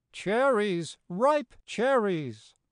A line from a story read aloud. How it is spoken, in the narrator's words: the old woman cried